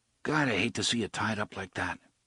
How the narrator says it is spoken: Eddie murmured

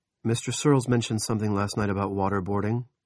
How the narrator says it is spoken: Barbie said

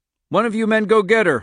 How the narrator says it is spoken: Hockstetter cried

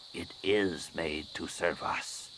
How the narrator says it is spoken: she said quietly

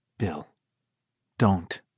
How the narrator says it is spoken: she said in a low voice

